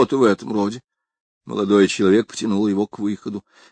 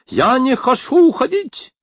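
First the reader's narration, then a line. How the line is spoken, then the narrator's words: Fierce snapping. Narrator (Russian): свирепо огрызнулся тот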